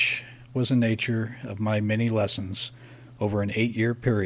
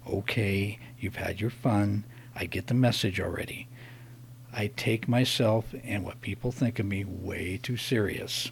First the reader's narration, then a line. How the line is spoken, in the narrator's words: gritted my teeth, under my breath said